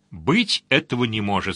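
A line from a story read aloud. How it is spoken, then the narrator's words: Plain. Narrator (Russian): сказал Сварог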